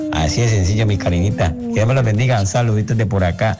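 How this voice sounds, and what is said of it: Lovely Colombian Spanish accent. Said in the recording (Spanish): “acento tan lindo”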